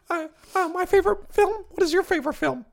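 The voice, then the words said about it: Mocking impression, Mickey Mouse-like voice. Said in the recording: “Is this your impression of me? ... this is how you sound ... What am I, Mickey Mouse?”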